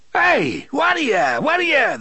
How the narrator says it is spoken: the driver yelled

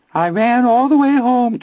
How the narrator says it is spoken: Teddy wavered in a dreadful little Anthony falsetto

